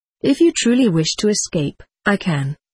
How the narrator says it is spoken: he replied

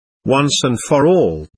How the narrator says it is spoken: shouted

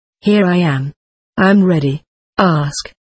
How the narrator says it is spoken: Itzhak asked

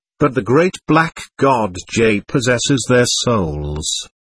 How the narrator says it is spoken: I answered sadly

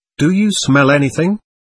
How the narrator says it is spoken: I asked

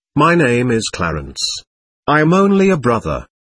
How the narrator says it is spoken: smiled kindly and replied

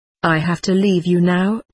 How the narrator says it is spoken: he said

